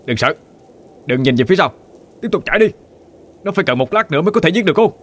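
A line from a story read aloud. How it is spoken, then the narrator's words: Loud shout. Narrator (Vietnamese): Hắn hét to lên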